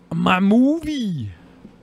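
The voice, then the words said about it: Imitates another person's voice. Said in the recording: “I'm such a good Donald Trump impersonator.”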